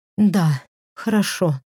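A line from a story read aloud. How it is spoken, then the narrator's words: Breathed out. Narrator (Russian): выдохнула она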